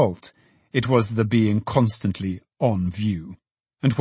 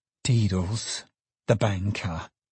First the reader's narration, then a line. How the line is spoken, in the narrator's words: gasped the secretary